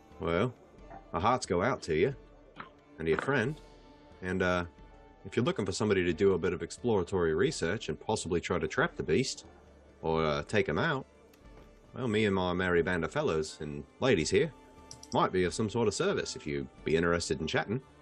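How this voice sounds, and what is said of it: Put-on Australian accent. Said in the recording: “You're not from around here. It's a strange accent you got there. ... I'm from down under.”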